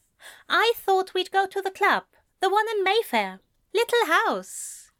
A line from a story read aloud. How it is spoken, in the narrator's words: Alistair said brightly